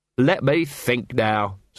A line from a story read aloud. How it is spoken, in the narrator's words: said Vimes